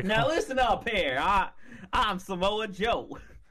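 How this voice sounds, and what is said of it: Exaggerated weird Southern accent. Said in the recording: “a weird southern accent ... Like he's Foghorn Leghorn”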